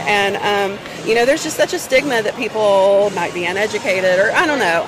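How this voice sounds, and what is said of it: Southern American accent. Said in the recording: “They love my sweet Southern accent”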